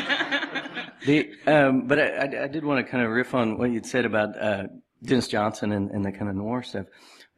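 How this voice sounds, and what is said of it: Strained, failing voice. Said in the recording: “my voice is going a little bit”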